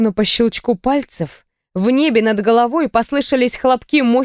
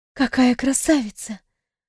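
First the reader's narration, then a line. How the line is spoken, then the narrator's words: Awed whisper. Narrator (Russian): прошептала я, не в силах отвести взгляд от этого чуда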